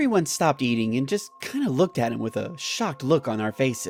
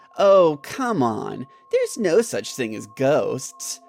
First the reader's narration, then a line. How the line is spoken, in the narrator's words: Jim replied in a mocking tone